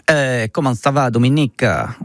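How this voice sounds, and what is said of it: Put-on Italian accent. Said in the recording (French): “je vais garder l'accent italien parce que je le fais trop bien”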